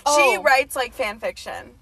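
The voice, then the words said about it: Yelling, loud voice. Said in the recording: “I don't know why I'm yelling at you... We're so loud when we're drunk”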